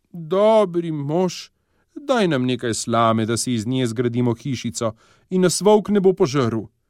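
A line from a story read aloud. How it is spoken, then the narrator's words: Pleading. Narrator (Slovenian): Prosile so ga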